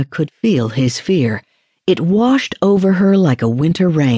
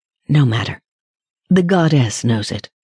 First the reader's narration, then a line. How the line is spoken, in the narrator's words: Mira murmured